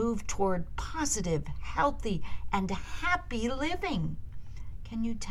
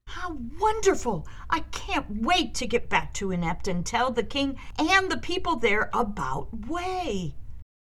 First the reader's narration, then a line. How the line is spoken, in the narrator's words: Wendy said excitedly